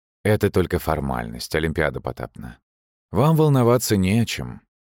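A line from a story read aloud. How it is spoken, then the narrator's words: Breezy, calm. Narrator (Russian): ответил лихо спокойно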